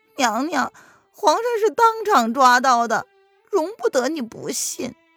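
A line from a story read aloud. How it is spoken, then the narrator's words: With a bitter smile. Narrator (Chinese): 小扇子苦苦一笑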